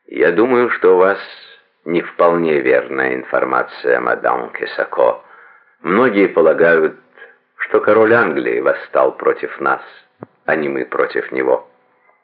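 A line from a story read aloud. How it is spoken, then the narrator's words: Calm, very polite. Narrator (Russian): Франклин ответил спокойно и очень вежливо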